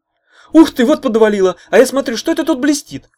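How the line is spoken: Exclaiming. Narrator (Russian): воскликнул

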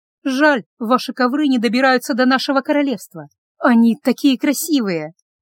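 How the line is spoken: With a sigh. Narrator (Russian): Гелла, вздохнув, сказала

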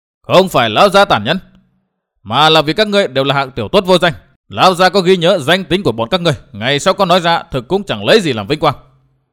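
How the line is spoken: Ringing shout. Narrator (Vietnamese): Hùng Phi quát vang

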